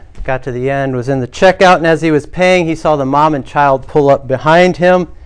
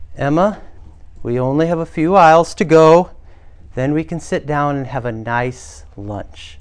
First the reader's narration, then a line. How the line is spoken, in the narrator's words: the mom spoke calmly